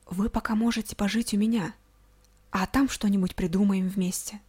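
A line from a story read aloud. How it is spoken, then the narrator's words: Barely audible. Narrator (Russian): произнес едва слышно электроник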